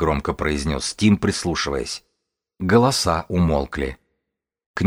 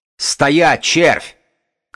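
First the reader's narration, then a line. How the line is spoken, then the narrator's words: Shout. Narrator (Russian): крикнул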